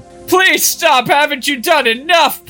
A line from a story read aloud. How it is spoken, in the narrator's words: Poser whimpered